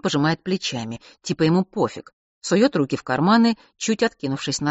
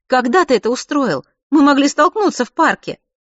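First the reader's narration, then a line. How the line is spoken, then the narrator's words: Giggling. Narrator (Russian): хихикает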